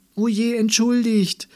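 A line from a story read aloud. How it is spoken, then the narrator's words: Called out. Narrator (German): rief sie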